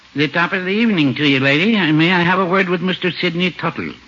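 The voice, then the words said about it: Put-on Irish brogue. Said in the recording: “give it a little Irish brogue”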